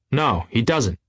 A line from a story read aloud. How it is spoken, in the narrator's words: said Tom coldly